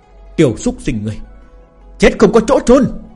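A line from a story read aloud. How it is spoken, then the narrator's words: Helpless raging scream. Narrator (Vietnamese): Lão tổ hồ tộc gào thét, lại không thể phản kháng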